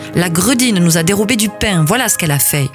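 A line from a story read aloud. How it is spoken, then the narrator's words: Yelling angrily. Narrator (French): hurla l'un d'eux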